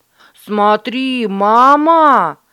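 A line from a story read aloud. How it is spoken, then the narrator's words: Shout. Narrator (Russian): закричал Дуэйн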